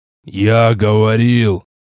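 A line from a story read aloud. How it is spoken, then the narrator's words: Old priest's wheeze. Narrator (Russian): просипел седой священник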